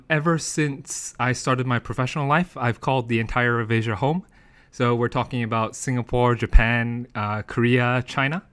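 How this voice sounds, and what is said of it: American accent. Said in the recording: “as you can tell from my accent, I'm actually educated in the United States”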